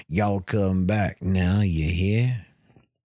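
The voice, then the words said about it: Put-on Southern US accent. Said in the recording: “the southern accent”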